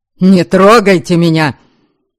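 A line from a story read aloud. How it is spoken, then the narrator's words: Deep-voiced shout. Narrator (Russian): Почему-то басом крикнула девица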